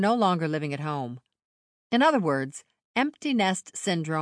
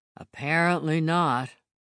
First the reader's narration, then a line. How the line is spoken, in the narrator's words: Ezra muttered